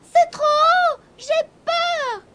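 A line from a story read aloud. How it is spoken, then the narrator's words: Sobbing. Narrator (French): se mit à sangloter Gobolino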